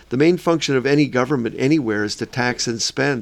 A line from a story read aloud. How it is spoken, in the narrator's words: I said